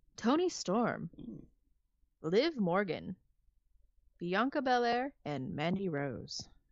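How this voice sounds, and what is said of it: Mock announcer voice. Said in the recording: “I'm trying to put on my announcer voice.”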